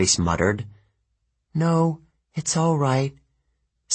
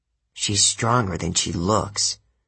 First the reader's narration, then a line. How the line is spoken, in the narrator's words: Clarice muttered, almost to herself